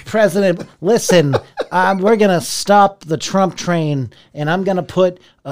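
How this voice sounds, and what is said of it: Imitates another person's voice. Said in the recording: “let me see if I can do his voice... I'm Michael Bloomberg.”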